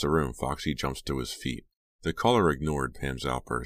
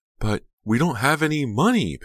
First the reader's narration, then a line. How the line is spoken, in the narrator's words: Pam cried